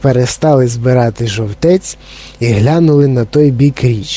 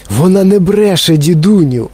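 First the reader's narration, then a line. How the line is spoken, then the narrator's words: Exclaiming. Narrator (Ukrainian): вигукнув Чарлі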